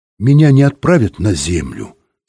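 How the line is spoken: Plain. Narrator (Russian): спросил Юра

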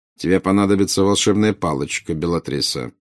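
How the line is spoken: Cold. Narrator (Russian): холодно проговорил Снег

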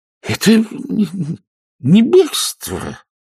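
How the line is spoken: Forced, strained. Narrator (Russian): выдавил из себя мистер Сардель

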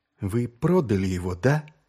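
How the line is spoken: Quiet. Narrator (Russian): тихо произнес Маркоу

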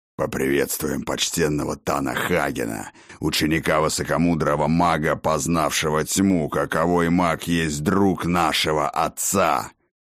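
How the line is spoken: Hoarse growl. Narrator (Russian): хриплым рыком произнес вожак гоблинов

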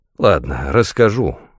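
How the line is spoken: Sighing. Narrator (Russian): вздохнул я

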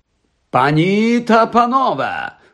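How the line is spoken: Loud exclamation. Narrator (Ukrainian): голосно вигукнув він

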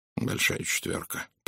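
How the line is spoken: Muttered. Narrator (Russian): пробормотал Пуаро

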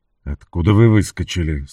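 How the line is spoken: Irritated question. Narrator (Russian): спросил Энтони раздраженно

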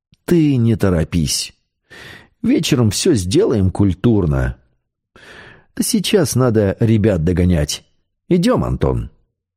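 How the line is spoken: Almost gentle. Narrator (Russian): почти ласково сказал

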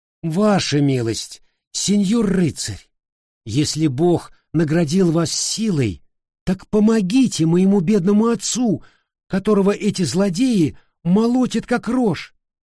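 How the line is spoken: Young woman exclaiming. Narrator (Russian): хозяйская дочь обратилась к стоявшему поодаль Дон Кихоту и воскликнула

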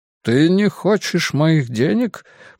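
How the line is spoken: Uncertain, puzzled repetition. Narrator (Russian): повторил он неуверенно, словно не понимая, радует это его или оскорбляет

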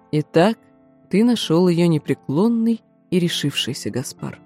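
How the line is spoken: Soft, gentle. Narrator (Russian): тот мягко проговорил

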